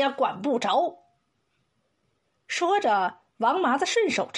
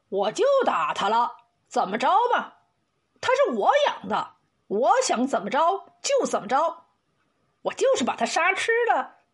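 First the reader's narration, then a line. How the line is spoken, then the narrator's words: Furious. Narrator (Chinese): 王麻子怒极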